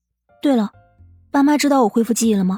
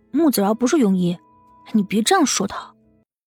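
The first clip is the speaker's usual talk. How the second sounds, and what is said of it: Quiet, defensive voice. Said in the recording (Chinese): “小声的辩解”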